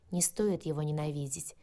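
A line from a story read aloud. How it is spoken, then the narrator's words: Soft soothing whisper. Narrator (Russian): тихо шепнул Алик на мое грозное сопение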